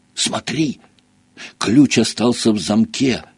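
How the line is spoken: Whisper. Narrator (Russian): прошептал Гарри

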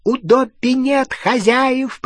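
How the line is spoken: Squeaky reply. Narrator (Russian): пропищал он в ответ

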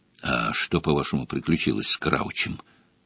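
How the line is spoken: Hoarse wheeze. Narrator (Russian): прохрипел Грюм

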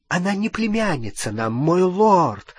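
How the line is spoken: Exclaiming over noise. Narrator (Russian): воскликнула Беллатриса, перекрикивая веселый гам

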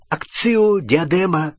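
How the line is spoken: Desperate exclamation. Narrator (Russian): в отчаянии воскликнула Гермиона

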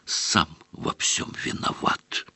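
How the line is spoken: Heavy sigh. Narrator (Russian): Тяжело вздохнул Рон

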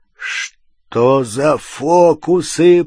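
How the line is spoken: Growled. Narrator (Russian): прорычал Хагрид

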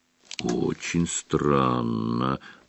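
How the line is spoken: Drawling. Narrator (Russian): протянул Фредди

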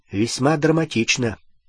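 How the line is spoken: Cold. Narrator (Russian): холодно произнес Гарри

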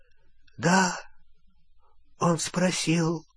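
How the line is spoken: Whispered. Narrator (Russian): прошептал Олливандер

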